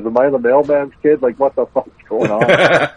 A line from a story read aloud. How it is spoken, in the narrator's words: laughs we can't stop laughing